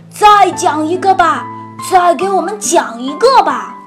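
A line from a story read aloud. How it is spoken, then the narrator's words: Monsters laughing, shouting. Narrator (Chinese): 怪物们都大笑一阵，高喊着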